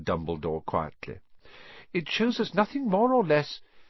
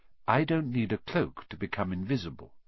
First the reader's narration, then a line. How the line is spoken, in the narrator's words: said Dumbledore gently